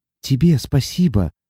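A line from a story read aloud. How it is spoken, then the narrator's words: Happy tearful whisper. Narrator (Russian): счастливо шепнула Сати, ощущая, как по щекам градом покатились слезы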